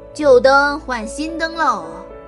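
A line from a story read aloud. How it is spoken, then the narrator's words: Street vendor's cry. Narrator (Chinese): 叫喊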